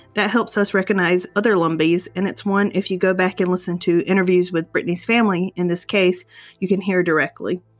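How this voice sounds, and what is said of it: Southern-sounding Lumbee dialect. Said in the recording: “You'll probably hear what you consider a Southern accent from both ... and I, but to us, we are speaking with a Lumbee dialect.”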